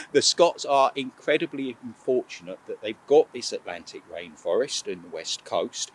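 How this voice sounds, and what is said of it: English accent. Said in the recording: “I'm conscious I'm saying this with an English accent”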